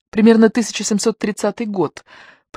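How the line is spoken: Whisper. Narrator (Russian): прошептала Мазарин

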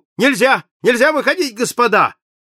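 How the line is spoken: Shouting conductor. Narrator (Russian): кондуктор закричал

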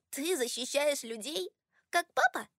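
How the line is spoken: Laughing. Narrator (Russian): Она рассмеялась

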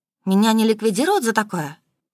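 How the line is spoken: Dejected reply. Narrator (Russian): уныло отозвалась

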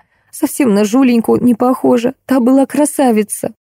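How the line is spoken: Elderly woman sobbing. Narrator (Russian): Пожилая женщина разрыдалась и сквозь слезы сказала

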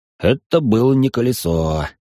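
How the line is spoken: Young man's sigh. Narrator (Russian): вздохнул парень

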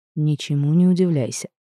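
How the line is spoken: Whisper. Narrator (Russian): Король шепнув

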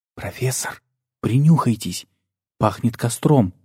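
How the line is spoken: Whispered. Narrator (Russian): прошептал

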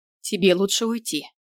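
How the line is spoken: Cold. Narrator (Russian): проговорила холодно

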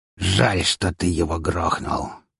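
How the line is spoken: Hissed through teeth, shaking with anger. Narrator (Russian): процедил он, едва ли не дрожа от злости

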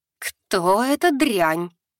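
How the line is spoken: Through gritted teeth. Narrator (Russian): процедила леди Ливьерис

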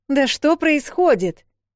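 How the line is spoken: Shouted. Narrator (Russian): крикнула Эл

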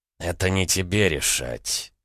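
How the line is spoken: Man's caustic gritted mutter. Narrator (Russian): едко процедил мужчина

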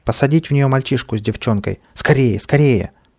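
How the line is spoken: Shout. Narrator (Russian): крикнул

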